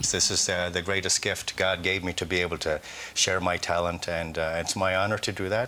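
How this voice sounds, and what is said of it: Irish accent that sounds put on. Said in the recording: “He sounds like somebody trying to do an Irish accent.”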